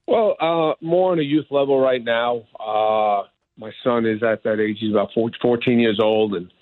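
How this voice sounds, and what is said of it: New York accent. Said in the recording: “you still got that New York accent, man. ... tough to get rid of.”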